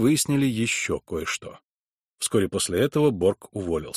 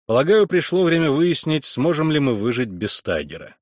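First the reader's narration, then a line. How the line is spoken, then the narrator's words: Loud, addressed to no one. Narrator (Russian): громко сказал я, никому не обращаясь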